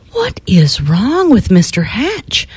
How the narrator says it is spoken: Everyone whispered

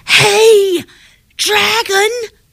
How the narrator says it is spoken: She shouted as loud as she could

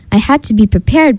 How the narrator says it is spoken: Bee Bear said

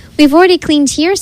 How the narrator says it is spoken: said the monkeys

